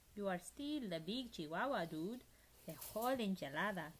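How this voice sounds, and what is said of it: Put-on Spanish accent. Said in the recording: “using his very best Spanish accent”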